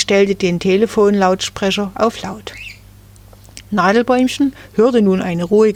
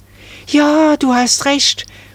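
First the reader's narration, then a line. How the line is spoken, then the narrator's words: Excited call. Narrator (German): rief da Marie aufgeregt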